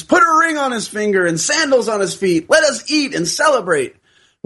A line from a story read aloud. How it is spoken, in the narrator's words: the father exclaims